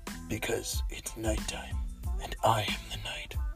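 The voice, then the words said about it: Gruff Batman-like character voice. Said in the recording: “you talk like you are Batman ... why don't you talk like a happy pink stuffed bear”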